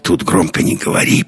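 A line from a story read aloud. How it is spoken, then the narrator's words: Whisper. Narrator (Russian): прошептал Андерс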